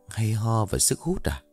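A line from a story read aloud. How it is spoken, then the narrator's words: Muttering. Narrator (Vietnamese): Sành lẩm bẩm trong miệng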